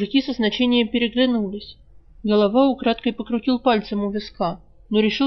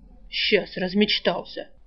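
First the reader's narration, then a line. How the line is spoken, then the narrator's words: Gruff mutter. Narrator (Russian): буркнул палач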